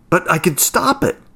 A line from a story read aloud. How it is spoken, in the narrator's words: exclaimed desperately